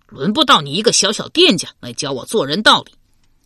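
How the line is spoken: Furious. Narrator (Chinese): 文虎大怒道

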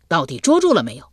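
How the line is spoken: Irritated. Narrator (Chinese): 有些发怒起来，道

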